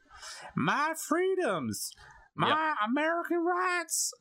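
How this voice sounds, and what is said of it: Poor put-on Southern American accent. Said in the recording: “That was a terrible accent ... you as a northerner were attempting to say that those are the people in the South”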